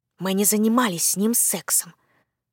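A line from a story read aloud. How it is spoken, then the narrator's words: Indignant quiet exclamation. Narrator (Russian): возмущенно восклицаю я, правда, совсем тихо, чтобы нас не услышали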